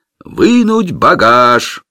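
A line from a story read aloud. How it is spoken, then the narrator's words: Human voice shouting. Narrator (Russian): человеческий голос прокричал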